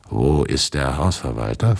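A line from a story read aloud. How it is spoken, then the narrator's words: Altered voice. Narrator (German): fragte mit anderer Stimme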